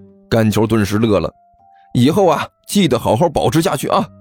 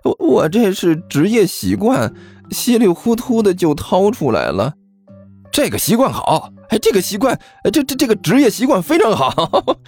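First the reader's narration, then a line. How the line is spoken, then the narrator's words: Dry forced laugh. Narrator (Chinese): 刘阿八干笑着说道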